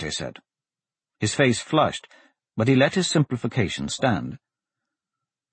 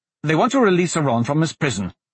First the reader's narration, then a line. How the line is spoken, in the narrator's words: Dante blurted